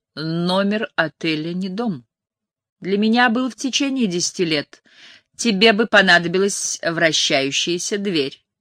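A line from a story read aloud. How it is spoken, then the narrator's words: Witty quip. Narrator (Russian): сострил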